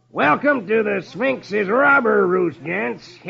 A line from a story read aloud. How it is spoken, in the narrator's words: Gusty shouts